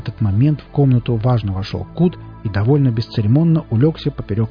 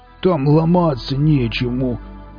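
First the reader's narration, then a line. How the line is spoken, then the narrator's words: Moaning. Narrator (Russian): простонал ей Велес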